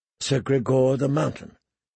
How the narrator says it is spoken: she said softly

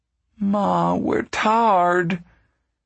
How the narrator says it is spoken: Ruthie wailed

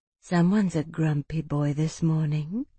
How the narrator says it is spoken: Odiana murmured to Aldric

